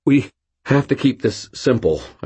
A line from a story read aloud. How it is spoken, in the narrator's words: I stuttered, thinking out loud